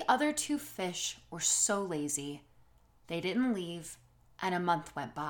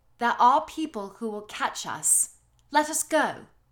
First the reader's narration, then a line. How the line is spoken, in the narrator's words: Thoughtful said